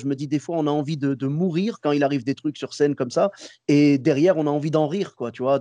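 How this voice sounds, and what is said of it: Moroccan-American accent in French. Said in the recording (French): “J'adore ton accent ... c'est l'accent marocain, marocain américain”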